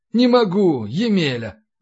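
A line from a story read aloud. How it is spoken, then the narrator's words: Sighing. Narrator (Russian): вздохнул Зазнобин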